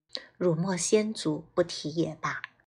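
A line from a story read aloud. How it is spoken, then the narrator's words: Soft, wistful. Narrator (Chinese): 沈韶光感慨一笑，轻声道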